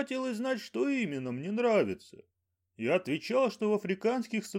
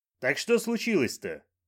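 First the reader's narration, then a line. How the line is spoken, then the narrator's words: Sharp question. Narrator (Russian): резко спросил Банджо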